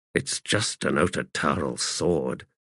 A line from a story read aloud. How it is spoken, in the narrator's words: he muttered, baffled at the Warthog's obvious alarm, unnerved by Setok's sudden attention